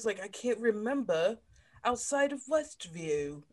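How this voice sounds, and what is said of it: Put-on accent, well done. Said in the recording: “that was a great accent. ... I was working on it.”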